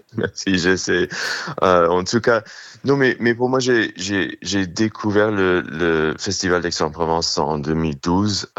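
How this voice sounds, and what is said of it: New York accent in French. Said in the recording (French): “l'accent new-yorkais”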